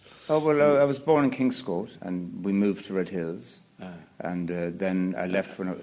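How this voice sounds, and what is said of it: Quite anglicised accent. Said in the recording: “Your accent is quite anglicised.”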